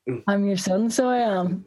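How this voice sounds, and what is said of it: Put-on Belfast accent. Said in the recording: “That was a better accent.”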